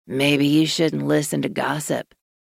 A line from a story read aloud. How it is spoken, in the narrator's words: Maverick said in a low growl